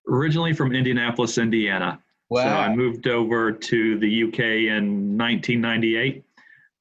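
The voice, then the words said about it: American accent. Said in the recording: “I haven't lost the accent ... You've got such a lovely accent”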